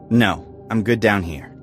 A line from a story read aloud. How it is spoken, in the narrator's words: I said firmly